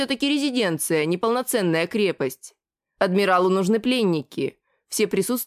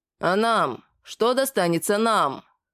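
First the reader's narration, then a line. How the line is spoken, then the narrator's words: Hoarse question. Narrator (Russian): хрипло спросил кто-то из капитанов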